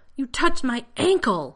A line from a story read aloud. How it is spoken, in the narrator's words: John shouted